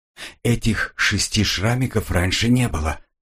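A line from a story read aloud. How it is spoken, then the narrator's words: Whispered. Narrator (Russian): прошептал он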